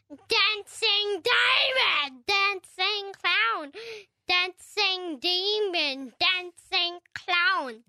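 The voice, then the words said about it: Creepy clown character voice. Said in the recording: “your Pennywise Dancing Clown impression”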